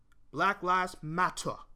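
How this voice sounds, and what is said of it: Bad put-on British accent. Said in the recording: “That's a terrible British accent”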